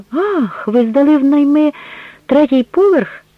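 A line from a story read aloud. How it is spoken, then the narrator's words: Exclamation. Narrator (Ukrainian): вигукнула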